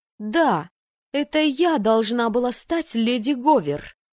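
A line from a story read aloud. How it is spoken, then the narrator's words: Heated outburst. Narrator (Russian): запальчиво выкрикнула она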